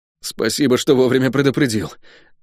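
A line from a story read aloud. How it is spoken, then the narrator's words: Hoarse wheeze, dazed. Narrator (Russian): просипел я, стараясь избавиться от звезд в глазах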